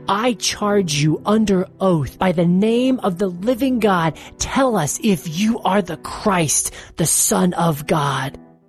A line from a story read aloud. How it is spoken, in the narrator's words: shouted